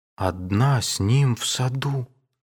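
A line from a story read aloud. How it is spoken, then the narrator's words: Whispered. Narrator (Russian): шепнул Александр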